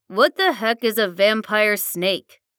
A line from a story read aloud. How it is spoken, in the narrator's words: Fred had said